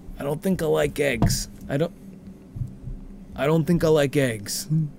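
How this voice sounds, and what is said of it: Imitates another person's voice. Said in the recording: “my Harrison impression ... That's Henry from Regarding Henry”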